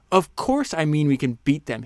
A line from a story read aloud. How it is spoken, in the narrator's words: he snapped